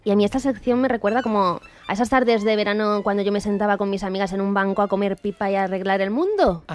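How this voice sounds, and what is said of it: Málaga Andalusian accent. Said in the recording (Spanish): “me ha salido el acento ... al pensar a mi gente de Málaga, pues me sale de ahí del alma”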